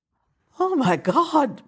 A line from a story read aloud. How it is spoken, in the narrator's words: Meredith gasped